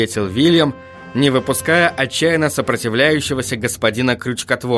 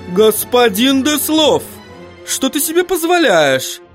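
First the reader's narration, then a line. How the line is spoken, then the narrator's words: Indignant exclamation. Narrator (Russian): воскликнула госпожа Эликсир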